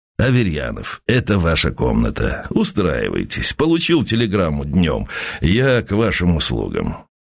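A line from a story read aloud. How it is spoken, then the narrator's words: Smoke-roughened voice. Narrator (Russian): Он сказал, наконец, прокуренным голосом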